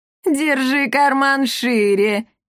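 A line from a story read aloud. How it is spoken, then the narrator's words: Giggling. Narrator (Russian): хихикнула комендантша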